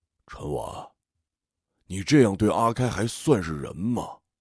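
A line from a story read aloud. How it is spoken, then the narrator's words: Hesitant, slow. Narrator (Chinese): 于二哥一愣 半晌，他缓缓道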